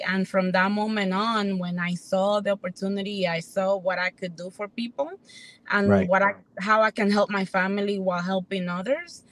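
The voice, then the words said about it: Hispanic New York accent. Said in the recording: “Sean said he loves the accent. ... I'm from Dominican Republic and Hispanic ... raised in New York.”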